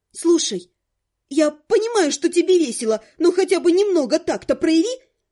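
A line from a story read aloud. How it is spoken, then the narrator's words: Irritated, through teeth. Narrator (Russian): Раздраженно процедила я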